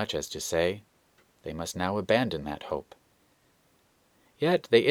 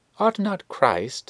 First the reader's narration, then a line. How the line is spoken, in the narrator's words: exclaimed he